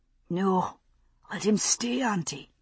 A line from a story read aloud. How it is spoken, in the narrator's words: said, croaking slightly